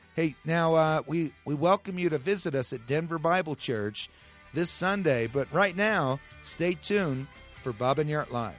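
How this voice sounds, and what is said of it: Hoarse, strained voice. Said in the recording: “sorry I have laryngitis”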